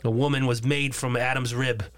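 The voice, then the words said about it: Boston accent. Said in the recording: “I'm slipping back into my Boston accent.”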